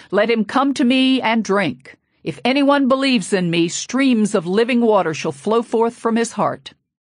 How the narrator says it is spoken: my father shouted

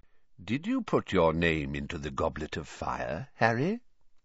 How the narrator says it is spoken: Dumbledore asked calmly

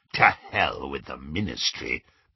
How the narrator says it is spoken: growled Greyback

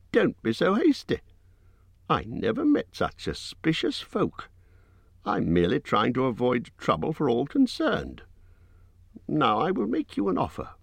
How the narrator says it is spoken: squeaked Bilbo

